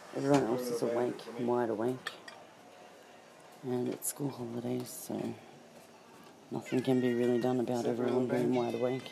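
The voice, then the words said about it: Sore, strained voice. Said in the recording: “My voice is really sore.”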